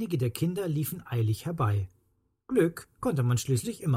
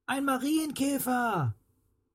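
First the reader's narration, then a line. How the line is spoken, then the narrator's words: Calling out. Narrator (German): rief Anna ihren Freunden zu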